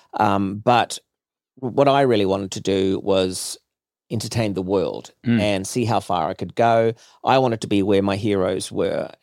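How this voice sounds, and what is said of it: New Zealand accent. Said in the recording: “I was always going to use this accent, and I was always going to be proud to be a New Zealander... him doing his New Zealand accent on television”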